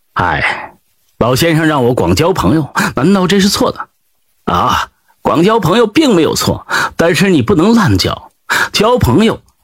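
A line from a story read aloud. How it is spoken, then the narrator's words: Sighing. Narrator (Chinese): 李山羊叹道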